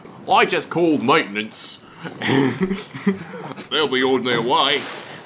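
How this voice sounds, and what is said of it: Imitated Imperial-style voice. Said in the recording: “I'm trying to do an Imperial voice. ... pretty spot on.”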